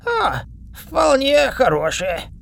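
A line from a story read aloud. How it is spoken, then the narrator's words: Hoarse croak. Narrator (Russian): прохрипел он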